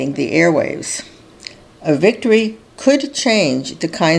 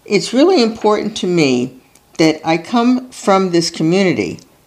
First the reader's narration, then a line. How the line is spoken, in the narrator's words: Plattner tells them, his voice faltering